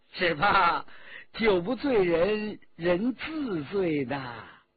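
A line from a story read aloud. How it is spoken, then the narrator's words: Laughing. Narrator (Chinese): 骆宾笑着说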